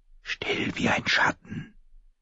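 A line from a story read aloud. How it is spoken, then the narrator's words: Whisper. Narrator (German): wisperte sie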